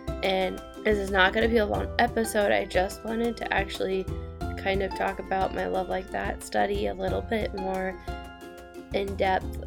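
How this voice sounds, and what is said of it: Slightly raspy, congested voice. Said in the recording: “excuse my voice if it's raspy at all ... I've just got a little bit of a cold going on”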